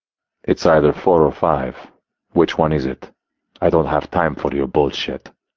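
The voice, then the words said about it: Thick Russian accent. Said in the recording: “he replied in a thick Russian accent.”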